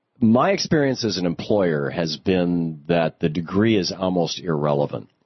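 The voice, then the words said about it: Congested voice with a cold. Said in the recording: “I've got a cold. Forgive me if I sneeze.”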